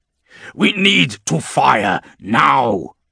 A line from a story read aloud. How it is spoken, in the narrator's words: he growls